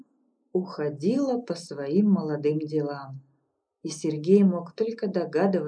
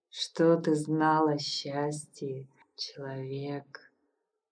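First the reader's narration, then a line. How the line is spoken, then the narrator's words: Low purring voice. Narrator (Russian): Раздался низкий мурлыкающий голос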